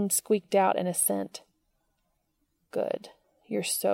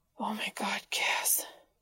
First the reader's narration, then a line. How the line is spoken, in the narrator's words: Dean whispered